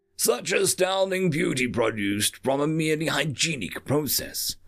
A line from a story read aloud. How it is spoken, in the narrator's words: she exclaimed